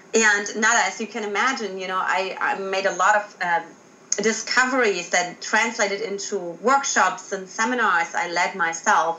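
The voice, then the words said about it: German accent. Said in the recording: “I got myself out of Germany, in case you haven't identified my accent”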